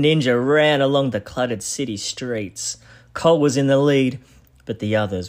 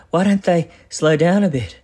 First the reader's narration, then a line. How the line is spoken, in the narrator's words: skeletons said, panting